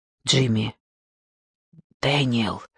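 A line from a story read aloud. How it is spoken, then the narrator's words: Teenage boy whispering. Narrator (Russian): прошептал темнокожий подросток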